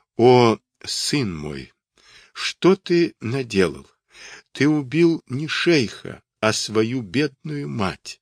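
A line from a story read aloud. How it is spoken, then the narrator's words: Weak lamenting voice. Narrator (Russian): Слабым голосом запричитала она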